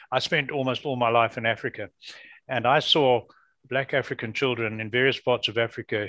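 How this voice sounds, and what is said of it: Non-North American accent. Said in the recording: “You can hear from my accent, I'm not a native North American.”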